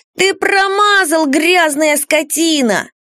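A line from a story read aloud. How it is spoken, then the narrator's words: Yelling. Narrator (Russian): Вернон заорал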